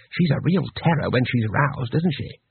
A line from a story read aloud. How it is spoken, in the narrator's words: Twoflower whispered